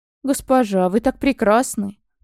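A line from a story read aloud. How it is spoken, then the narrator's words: Strained, forced-out words. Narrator (Russian): Только и выдавил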